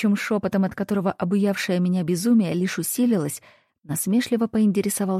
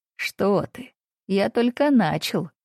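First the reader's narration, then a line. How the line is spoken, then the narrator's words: Laughing. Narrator (Russian): Рассмеялся он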